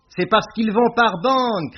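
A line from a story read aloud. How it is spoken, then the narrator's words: Shouted. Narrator (French): cria Beaumasque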